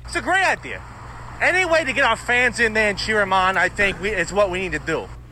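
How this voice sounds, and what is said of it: New York accent. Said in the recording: “He has a New York accent”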